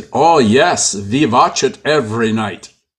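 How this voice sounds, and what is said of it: Imitates another person's accent. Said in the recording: “I'm going to try to do his accent.”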